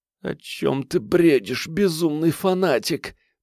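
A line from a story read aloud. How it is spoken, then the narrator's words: Moaning. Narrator (Russian): простонала она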